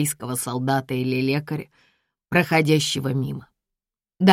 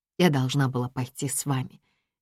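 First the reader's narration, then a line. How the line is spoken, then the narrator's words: Quiet regretful female voice. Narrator (Russian): тихо сожалеет она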